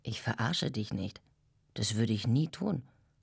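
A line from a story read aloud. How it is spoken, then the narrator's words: Plain. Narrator (German): sagte The Dude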